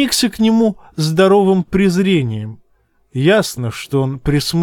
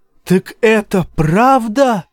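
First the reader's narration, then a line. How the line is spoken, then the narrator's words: Woman shouting. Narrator (Russian): закричала вольноотпущенница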